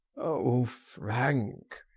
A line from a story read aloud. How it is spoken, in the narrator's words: he groaned